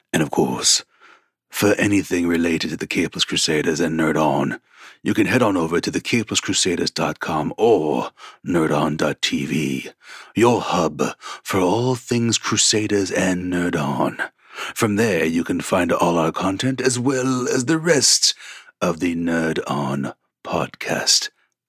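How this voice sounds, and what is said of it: Creepy put-on voice. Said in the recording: “creepy voice”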